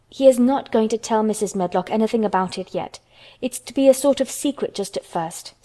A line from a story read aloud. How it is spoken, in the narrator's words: said Mary firmly